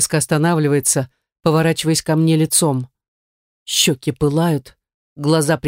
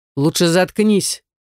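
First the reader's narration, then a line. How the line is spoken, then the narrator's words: Barked retort. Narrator (Russian): рявкнул в ответ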